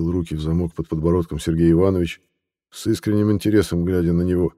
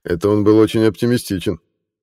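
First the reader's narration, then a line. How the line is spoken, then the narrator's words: Chuckling. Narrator (Russian): хохотнул лейтенант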